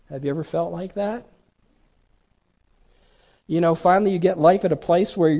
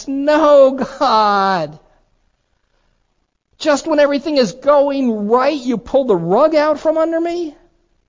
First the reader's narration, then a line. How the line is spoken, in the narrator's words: Jonah whines